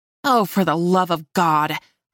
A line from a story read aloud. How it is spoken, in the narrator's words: I snarled